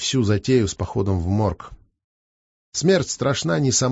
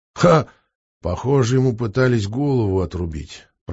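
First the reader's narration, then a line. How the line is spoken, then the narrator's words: Grumbled under breath. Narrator (Russian): пробурчал себе под нос эксперт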